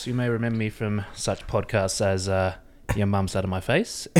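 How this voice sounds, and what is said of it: Australian accent. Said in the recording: “the accent,⟧ ... is from Australia”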